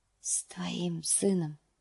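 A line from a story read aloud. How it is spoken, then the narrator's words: Whispered. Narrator (Russian): шепнул он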